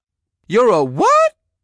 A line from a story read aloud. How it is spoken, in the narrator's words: Gary screeched